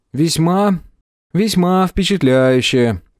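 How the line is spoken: Sad. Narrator (Russian): печально произнес Тепик

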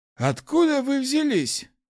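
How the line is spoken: Slightly bewildered. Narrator (Russian): немного растерянно спросил хозяин башни

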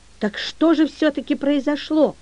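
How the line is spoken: Anxious question. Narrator (Russian): взволнованно спросила Мюриель

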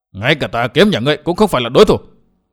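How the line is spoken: Hateful angry shout. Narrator (Vietnamese): Chu Kiếm Thanh vì quá hận Vân Thiên Nhạc bèn quát

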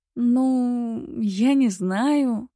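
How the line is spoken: Reluctant drawl. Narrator (Russian): протянула Вика

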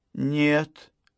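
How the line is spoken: Quiet. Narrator (Russian): ответила Гарриет тихо

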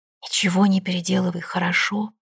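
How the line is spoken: Hoarse whisper. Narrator (Russian): хрипло шептал отец

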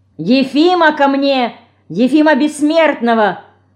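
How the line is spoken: Lord shouting. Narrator (Russian): Снова крикнул пан

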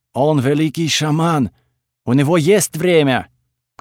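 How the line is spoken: Loud announcement. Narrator (Russian): громко объявила дикарка

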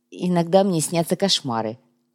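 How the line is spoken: Sigh. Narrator (Russian): вздохнул Кумар

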